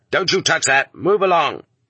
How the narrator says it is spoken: the convoy guard would roar

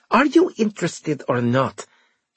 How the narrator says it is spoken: She snapped

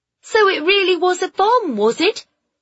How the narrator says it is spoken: one of the women called out to him

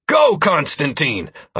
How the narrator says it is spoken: I barked

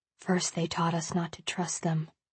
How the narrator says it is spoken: he whispers

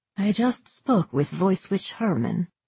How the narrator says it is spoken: she said quietly

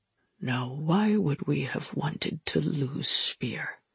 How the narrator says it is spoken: Irja asked quietly

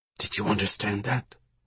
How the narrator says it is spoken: Remy whispered to Sam

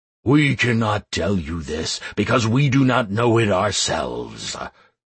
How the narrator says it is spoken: growled the darkness

